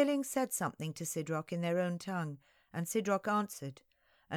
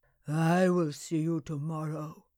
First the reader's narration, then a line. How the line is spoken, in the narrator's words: he said flatly